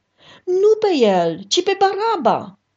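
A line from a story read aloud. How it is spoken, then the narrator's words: Crowd shouting. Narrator (Romanian): toți au strigat din nou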